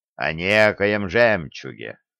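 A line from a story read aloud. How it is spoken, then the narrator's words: Plain. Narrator (Russian): сказал Генри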